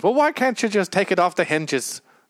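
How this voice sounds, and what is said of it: Weak attempt at a British accent. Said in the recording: “with his weird British accent ... I can't do British.”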